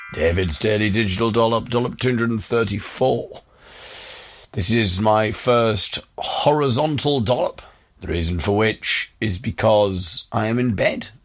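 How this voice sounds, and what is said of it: Fake northeast English accent. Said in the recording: “why am I putting on a fake northeast accent?”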